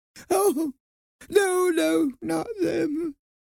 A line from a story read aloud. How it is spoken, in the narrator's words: sobbed